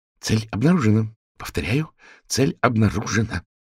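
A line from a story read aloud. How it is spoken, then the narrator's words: Hushed serious conspiratorial tone. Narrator (Russian): без приветствий приглушенным заговорщицким тоном серьезно сообщила она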